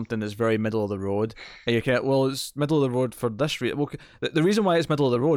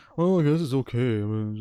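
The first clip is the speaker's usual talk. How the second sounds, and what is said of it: Imitates another person's voice. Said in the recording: “It's a pretty good impression of Connor.”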